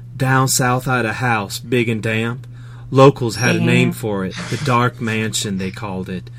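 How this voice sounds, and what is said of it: Put-on Southern US accent. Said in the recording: “can do her southern accent really well.”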